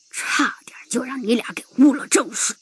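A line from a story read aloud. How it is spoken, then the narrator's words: Muttering. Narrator (Chinese): 老地主……嘀咕道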